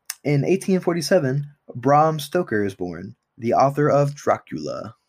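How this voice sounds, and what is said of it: Usual voice. Nothing is said of it.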